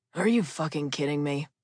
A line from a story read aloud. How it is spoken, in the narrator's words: Pastor Pete apparently forgot that his lapel mic was on because he sighed and said